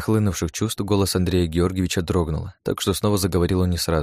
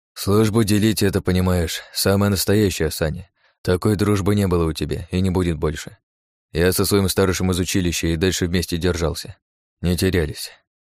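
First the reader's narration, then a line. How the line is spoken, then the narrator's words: Sighing. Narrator (Russian): вздохнул Андрей Георгиевич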